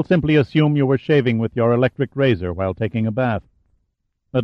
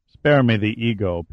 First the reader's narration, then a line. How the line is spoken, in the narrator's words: Pitt growled